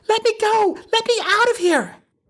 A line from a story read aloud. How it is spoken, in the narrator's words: She's shrieking